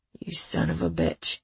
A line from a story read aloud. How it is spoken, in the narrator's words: someone mutter